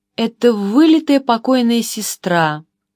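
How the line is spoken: Excited exclamation. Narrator (Russian): воскликнул господин Глуаген, с нескрываемым волнением

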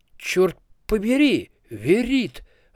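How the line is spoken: Wizard's exclamation. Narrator (Russian): воскликнул один из стоящих поблизости волшебников

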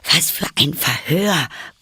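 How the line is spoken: Panting while running. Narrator (German): keuchte Alice beim Rennen

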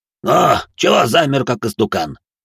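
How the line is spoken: Gnome's snort. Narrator (Russian): хмыкнул гном

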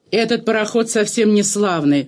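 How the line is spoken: Gloomy muttering to himself. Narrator (Russian): проворчал он угрюмо, точно про себя

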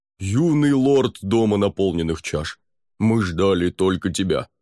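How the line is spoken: Deep booming voice. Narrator (Russian): пробасил он

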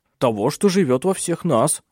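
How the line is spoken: Irritated curt remark. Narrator (Russian): уже раздраженно бросил Клаус

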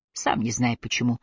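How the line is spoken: Mumbling. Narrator (Russian): пробормотал Аллейн

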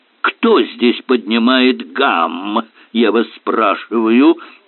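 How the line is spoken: Growled. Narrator (Russian): прорычал доктор Керк

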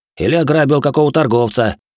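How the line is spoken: Scoffing snort. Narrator (Russian): я хмыкнул

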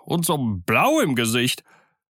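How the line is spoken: Shuddering pirate's call. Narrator (German): rief ein dritter Pirat mit einem Schauder

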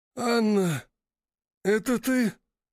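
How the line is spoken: Hoarse man's question. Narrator (Russian): спросил сиплым голосом мужчина

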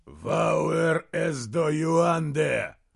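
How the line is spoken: Growled, cold foreign accent. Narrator (Russian): прорычал ему в ухо голос с холодным акцентом Риммерсгарда

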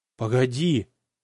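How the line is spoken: Barely audible wheeze. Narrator (Russian): Захрипел Кривошеев еле слышно

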